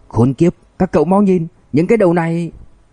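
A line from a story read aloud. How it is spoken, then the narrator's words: Terrified sudden shout. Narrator (Vietnamese): Lưu Nhân đột nhiên hét lên kinh hãi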